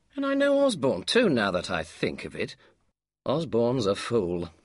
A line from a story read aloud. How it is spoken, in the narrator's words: he commented happily